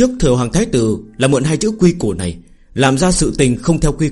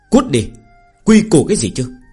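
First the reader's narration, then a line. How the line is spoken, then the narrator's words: Angry scolding. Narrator (Vietnamese): Phương Hành giận dữ, mắng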